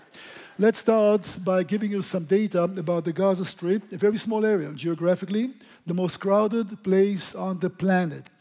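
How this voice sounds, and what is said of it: Noticeable non-native English accent. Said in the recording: “Understand my accent”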